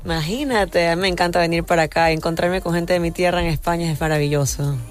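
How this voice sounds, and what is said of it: Ecuadorian Spanish accent. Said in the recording (Spanish): “qué acento tan bonito ... tú eres ecuatoriana”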